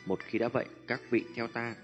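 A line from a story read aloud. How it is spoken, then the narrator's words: Smiling. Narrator (Vietnamese): Tiêu Viêm khẽ gật đầu mỉm cười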